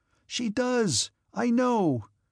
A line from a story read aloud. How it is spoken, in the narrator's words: Pierre cried fiercely